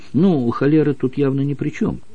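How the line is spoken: Plain. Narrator (Russian): сказал профессор Свитчайлд

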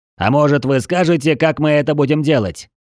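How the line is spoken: Sudden shout. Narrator (Russian): Вдруг выкрикнул кто-то со стороны

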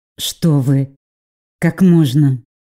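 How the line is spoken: Through gritted teeth. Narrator (Russian): Проговорила я практически сквозь зубы

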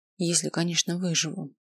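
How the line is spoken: Very quiet. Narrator (Russian): добавил совсем тихо

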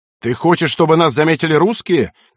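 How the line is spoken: Angry shouting. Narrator (Russian): кричал он на перепуганного егеря

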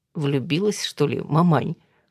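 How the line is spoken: Daughter, short laugh. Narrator (Russian): хохотнула дочь

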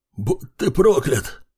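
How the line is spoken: Hoarse rasp, coughing blood. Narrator (Russian): харкая кровью, прохрипел смертник

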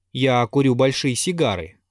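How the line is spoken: Plain. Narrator (Russian): ответил Аркадий

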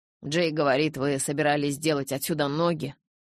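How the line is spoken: Father grumbling. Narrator (Russian): пробурчал папа

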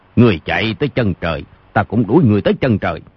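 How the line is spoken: Shouted threat. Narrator (Vietnamese): giọng Âu Dương Phong quát

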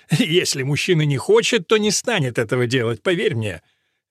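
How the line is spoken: Snort. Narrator (Russian): Эдмунд хмыкнул

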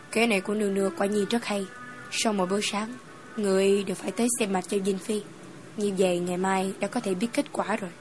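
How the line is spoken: Soft, gentle. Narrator (Vietnamese): Phương Hàm nhẹ nhàng nói

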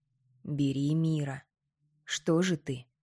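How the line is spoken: Hoarse mutter. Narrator (Russian): хрипло пробормотал Горын

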